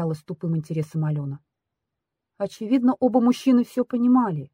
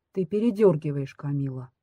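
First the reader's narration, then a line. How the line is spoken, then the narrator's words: Harsh interrupting voice. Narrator (Russian): теперь уже жестким голосом прервал меня Алмаз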